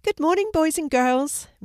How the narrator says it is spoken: Miss Summer said cheerfully

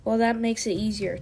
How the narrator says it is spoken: Tiger Claw snarled

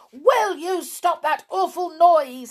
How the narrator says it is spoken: said the cat quite fiercely

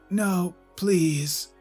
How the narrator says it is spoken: Jackson pleaded in a weak voice

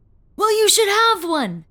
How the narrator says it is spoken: he exclaimed

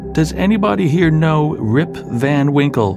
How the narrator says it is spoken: cried out in despair

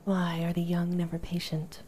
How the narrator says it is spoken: Kratos sighed

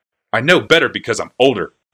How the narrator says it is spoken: said Urza coldly

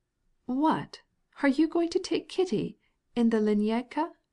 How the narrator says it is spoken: exclaimed the princess reproachfully

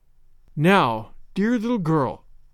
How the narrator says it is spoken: said Sarah, and her voice trembled

